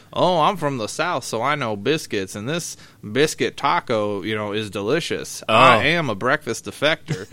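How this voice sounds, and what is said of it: Exaggerated hillbilly Southern US accent. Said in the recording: “my terrible like. Hillbilly southern accent that I do ... world renowned hillbilly southern accent that you do”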